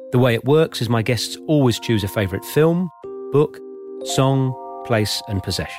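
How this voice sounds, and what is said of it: British accent. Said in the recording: “who has a delightful British accent”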